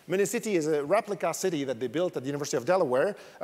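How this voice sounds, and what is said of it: French accent. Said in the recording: “You probably noticed from my accent, I'm French”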